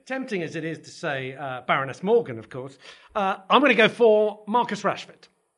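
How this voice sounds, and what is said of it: Mancunian English accent. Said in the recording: “As a devout Manchester United fan, you can tell from my accent”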